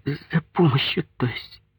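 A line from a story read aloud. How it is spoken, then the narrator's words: Sobbing. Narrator (Russian): всхлипнула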